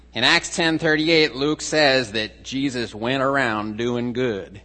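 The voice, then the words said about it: Put-on Texan accent. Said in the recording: “That's my best Texan accent.”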